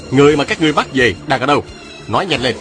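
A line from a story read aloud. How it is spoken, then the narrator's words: Barked question. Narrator (Vietnamese): Viên Thừa Chi quát hỏi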